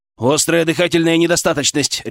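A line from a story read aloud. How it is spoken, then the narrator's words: Barked. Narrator (Russian): рявкнул он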